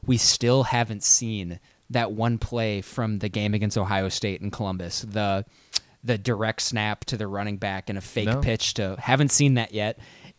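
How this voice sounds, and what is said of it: Giddy, excited voice. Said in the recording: “I'm getting giddy right now. I don't know if you can hear it in my voice.”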